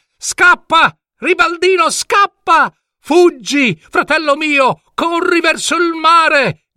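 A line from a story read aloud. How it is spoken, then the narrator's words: Shouting. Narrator (Italian): gridò Adalgino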